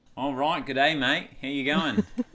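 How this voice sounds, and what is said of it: Put-on Australian accent. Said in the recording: “Say good day, mate, in an Australian accent.”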